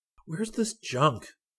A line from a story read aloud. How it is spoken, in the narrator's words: Rick demanded softly